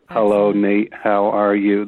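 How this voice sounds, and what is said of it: Bad 80s robot voice. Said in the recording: “a really bad 80s robot voice ... Stephen Hawking, kind of when he said that, like in the robot voice ... automated robot voice”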